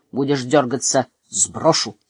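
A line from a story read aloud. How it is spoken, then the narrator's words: Quiet. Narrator (Russian): тихо сказал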